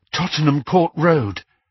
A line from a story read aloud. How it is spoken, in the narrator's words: panted Hermione